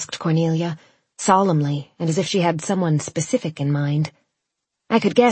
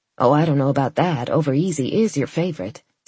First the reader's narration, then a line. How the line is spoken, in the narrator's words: said my mother